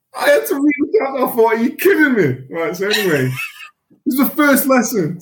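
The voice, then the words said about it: Softened Mancunian accent. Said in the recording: “a full-blooded, thick Mancunian accent, thicker than this one. It's softer now”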